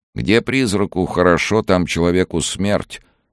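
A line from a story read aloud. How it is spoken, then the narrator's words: Gloomy reply. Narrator (Russian): мрачно ответил тот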